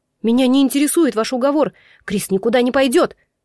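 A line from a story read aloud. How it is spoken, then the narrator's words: Furious bark. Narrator (Russian): Рявкнула, чувствуя, как в крови гудит ярость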